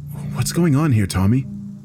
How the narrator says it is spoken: I whispered in my companion's ear

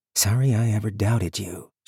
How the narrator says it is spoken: she murmured, partly to herself

